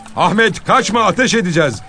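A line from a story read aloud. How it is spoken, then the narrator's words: Distant shouting. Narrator (Turkish): diye bağırıldığını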